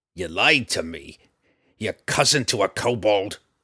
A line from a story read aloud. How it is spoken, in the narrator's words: Roddy growled